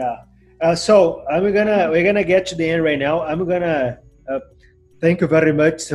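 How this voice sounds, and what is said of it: Usual voice. Nothing is said of it.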